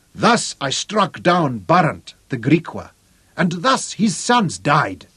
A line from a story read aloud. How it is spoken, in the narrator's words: the nation roared